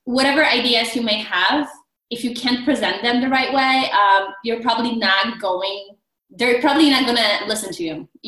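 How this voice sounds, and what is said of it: Polish accent. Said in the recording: “as you know, you can hear, I have an accent. I'm originally from Poland”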